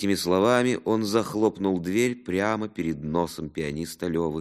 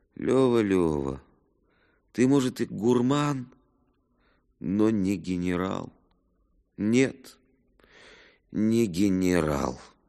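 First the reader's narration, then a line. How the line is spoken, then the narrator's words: Heavy sigh, then speaking. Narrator (Russian): Тилим тяжело вздохнул и произнес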